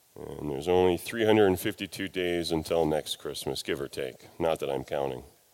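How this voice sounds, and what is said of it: Congested, sinusy voice. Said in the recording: “forgive my voice. I am very sinusy.”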